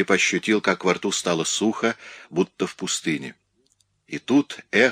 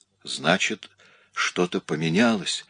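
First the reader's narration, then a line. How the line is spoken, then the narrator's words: Barely audible whisper. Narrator (Russian): еле слышно прошептала Сара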